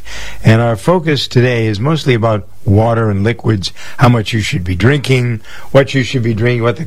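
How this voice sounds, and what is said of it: Unwell, allergy-affected speaking voice. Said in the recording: “apologize for my voice. I have very bad allergies”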